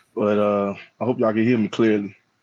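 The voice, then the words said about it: Hoarse, strained voice. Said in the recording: “apologize for my voice, man. I lost my voice,”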